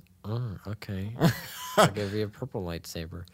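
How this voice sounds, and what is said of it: George Lucas impression. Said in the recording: “That was a pretty good George Lucas impression.”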